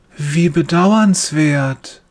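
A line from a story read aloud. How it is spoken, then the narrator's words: Gentle voice. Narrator (German): sagt er mit sanfter Stimme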